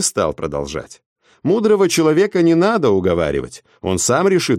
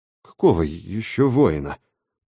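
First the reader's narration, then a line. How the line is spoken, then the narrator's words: Mutter. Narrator (Russian): пробормотал Дакота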